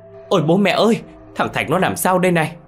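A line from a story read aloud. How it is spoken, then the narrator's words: Woman screaming. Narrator (Vietnamese): Cô Hân hét lên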